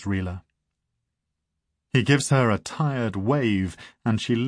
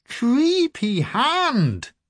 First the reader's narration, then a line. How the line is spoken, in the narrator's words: she exclaims